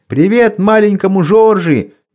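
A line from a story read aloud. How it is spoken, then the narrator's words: Crowd yelling. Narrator (Russian): и вопили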